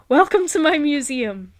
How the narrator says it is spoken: gasped

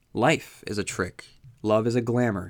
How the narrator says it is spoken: she replied

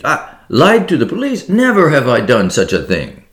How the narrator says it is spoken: cried Hippolyte

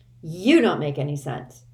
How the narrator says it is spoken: Constance snapped

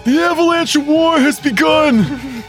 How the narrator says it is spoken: Rox Naughty is going to exclaim

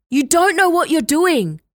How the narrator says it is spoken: Reese shouted after her

